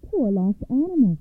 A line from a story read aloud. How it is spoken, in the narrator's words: she cried